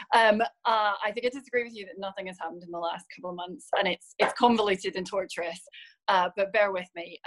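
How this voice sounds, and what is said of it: Northern Irish accent, slightly Scottish. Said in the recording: “I'm from the part of Northern Ireland that's very close to Scotland. So I've always had a kind of slightly Scottish twinge to my accent, but I am Northern Irish.”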